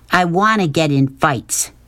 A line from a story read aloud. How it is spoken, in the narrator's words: said fiercely